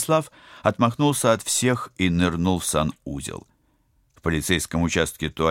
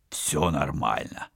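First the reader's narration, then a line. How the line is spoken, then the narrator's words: Hoarse, weak voice. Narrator (Russian): Сиплым от слабости голосом ответил за капитана Вадим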